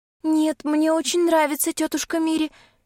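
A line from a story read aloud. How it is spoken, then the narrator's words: Frightened child reassuring. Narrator (Russian): заверяет меня девочка, испуганно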